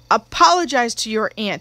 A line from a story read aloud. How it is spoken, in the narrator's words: he said